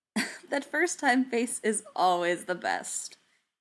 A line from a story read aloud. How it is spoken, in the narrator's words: he said with a chuckle